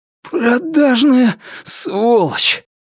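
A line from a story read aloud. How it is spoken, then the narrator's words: Hoarse wheeze. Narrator (Russian): прохрипел он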